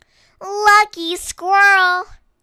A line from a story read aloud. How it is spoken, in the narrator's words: sighed Duck